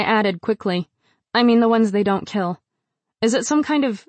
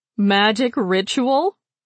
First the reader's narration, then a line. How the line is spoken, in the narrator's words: Rain laughed again